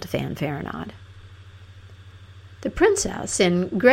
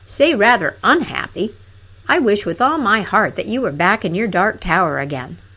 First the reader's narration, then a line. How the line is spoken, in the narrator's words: cried